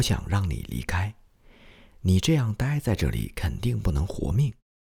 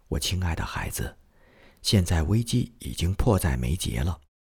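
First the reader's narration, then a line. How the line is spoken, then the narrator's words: Solemn and gentle. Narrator (Chinese): 她用非常庄重而温柔的口气对我说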